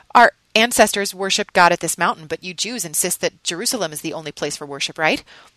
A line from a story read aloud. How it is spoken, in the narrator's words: When she found her tongue, she stammered